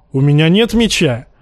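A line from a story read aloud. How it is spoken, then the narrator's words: Shout. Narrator (Russian): крикнул Джейма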